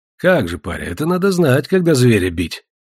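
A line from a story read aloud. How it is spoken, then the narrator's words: Flattered laughter. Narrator (Russian): засмеялся польщеный Иван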